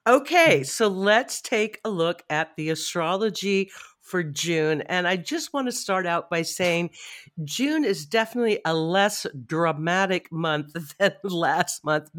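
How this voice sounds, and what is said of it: Stuffy, congested head-cold voice. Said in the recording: “I have a little bit of a head cold today. So if I sound a little stuffy ... my head is very stuffy.”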